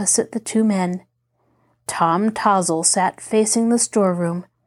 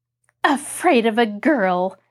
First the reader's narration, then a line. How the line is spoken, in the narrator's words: Mary returned scornfully